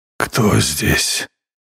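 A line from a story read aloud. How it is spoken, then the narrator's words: Hoarse rasp. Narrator (Russian): прохрипел генерал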